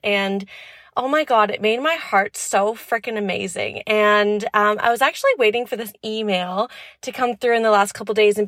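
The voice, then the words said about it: Out of breath, breathy speech. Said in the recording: “that's why I'm still out of breath because I climbed the hill and I just finished”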